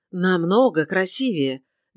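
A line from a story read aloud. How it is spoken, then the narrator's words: Ardent exclamation. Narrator (Russian): горячо воскликнул сэр Филипп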